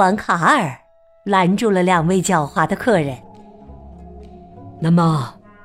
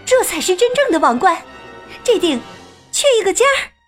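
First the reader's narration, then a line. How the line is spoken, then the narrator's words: Surprised cry. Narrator (Chinese): 卡拉吃惊的叫道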